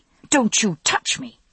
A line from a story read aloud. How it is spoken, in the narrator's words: I snapped